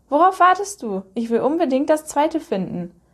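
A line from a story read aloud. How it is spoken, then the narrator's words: Called out. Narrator (German): rief er seiner Mutter zu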